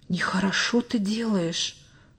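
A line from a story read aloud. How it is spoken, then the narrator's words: Whisper in ear. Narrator (Russian): словно шепнул кто-то ему на ухо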